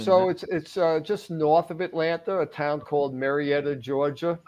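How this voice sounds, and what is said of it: Long Island New York accent. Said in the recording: “You could tell this is not a Georgia accent ... upstate New York or something ... No, Long Island ... after 28 years being in Atlanta, the accent shifted north a little”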